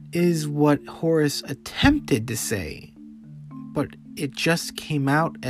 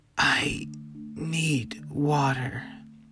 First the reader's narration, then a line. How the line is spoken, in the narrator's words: coughed a painful cough, and he just murmured